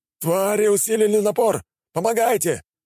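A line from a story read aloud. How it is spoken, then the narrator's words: Group shouting. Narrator (Russian): прокричала группа магов у обвала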